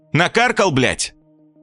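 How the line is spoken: Angry question. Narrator (Russian): Зло спросил

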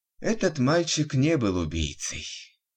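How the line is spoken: Heavy sigh. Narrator (Russian): тяжело вздохнул врач

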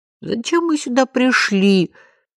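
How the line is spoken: Sobbing. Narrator (Russian): всхлипнул Жан-Жорж

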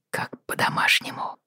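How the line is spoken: Whisper. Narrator (Russian): прошептал Роджер

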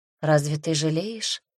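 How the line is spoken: Quiet question. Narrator (Russian): тихо спросила Агата

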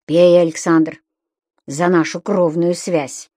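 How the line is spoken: Dull, insistent repetition. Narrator (Russian): глухо твердил Векшин

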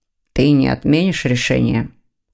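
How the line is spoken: Cold question. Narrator (Russian): холодно спросил Дамиан

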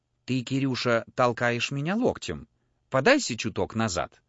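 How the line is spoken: Whisper in the ear. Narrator (Russian): Жена же ко мне была так близко, что могла шепнуть мне на ухо

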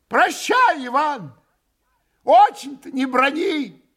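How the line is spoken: Father's farewell shout. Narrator (Russian): крикнул в последний раз отец

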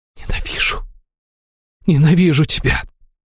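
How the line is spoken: Spellbound whisper. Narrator (Russian): прошептала Аштира, завороженно

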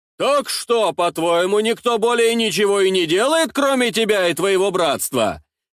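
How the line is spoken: Deliberately loud, threatening. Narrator (Russian): Нарочито громко и угрожающе говорил Остап

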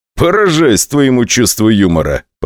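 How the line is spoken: Laughing remark. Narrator (Russian): посмеялся Вячеслав Сергеевич

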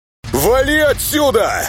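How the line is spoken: Yelling. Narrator (Russian): Снова заорал Темный

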